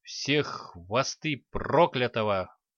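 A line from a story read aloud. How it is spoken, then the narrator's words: Displeased muttering. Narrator (Russian): недовольно пробурчала себе под нос девушка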